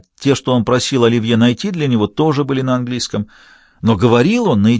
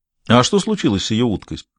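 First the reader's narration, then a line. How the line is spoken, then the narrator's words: Plain. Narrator (Russian): спросил Бувар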